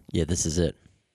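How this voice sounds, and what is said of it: Put-on radio voice, ransom-call tone. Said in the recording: “I've been working on my radio voice ... It sounds like you're asking for ransom. That's what it sounds like.”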